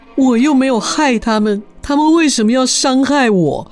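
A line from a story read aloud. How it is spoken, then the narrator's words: Grown man crying. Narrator (Chinese): 一个大男人就哭着说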